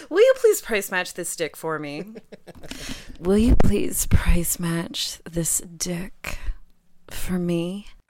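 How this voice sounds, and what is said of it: Put-on sexy voice. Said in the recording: “That's a very sexy voice ... Love the voice though. I do love the voice.”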